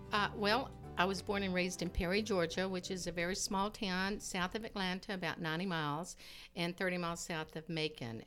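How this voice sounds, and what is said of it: Slight Southern twang. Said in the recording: “every now and then I get this little twang.”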